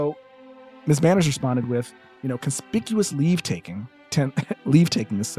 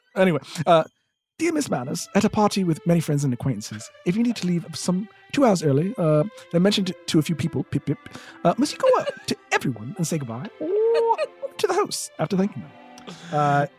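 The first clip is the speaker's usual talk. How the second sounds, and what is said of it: Put-on British accent. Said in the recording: “was that person a little bit British? ... I sensed a little bit of British. ... this is like a very authentic accent.”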